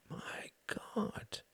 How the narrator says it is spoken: whispered Reginald

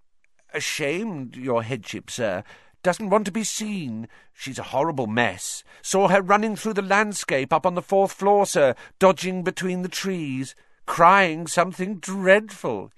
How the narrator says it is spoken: said happily

